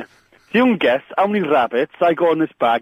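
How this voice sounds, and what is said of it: Put-on Welsh accent. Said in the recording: “do your Welsh ... Do the Welsh ... It was a good accent, wasn't it? It was a good accent. It was the quatters that kind of did it for me”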